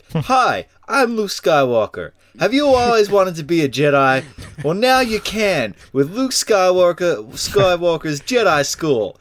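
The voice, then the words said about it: Bad American-sounding Luke Skywalker impression. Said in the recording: “What was with that accent? ... that was really bad. ... Was Luke kind of a bit American?”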